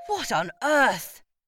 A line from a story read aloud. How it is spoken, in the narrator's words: spluttered Dad